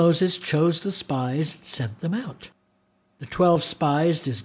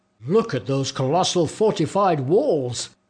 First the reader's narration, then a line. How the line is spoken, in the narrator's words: exclaimed